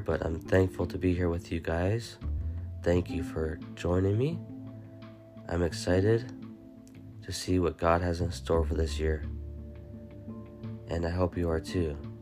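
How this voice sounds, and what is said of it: Voice affected by a cold. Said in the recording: “I apologize for my voice. ... I'm getting over a cold”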